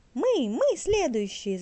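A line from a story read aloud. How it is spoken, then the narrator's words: Birds shouting. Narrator (Russian): закричали клесты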